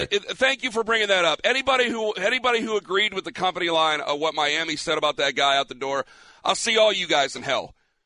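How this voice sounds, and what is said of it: Breathless, out of breath speech. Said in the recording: “I'm a little out of breath.”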